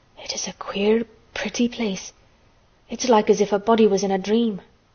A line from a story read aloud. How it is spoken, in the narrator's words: he almost whispered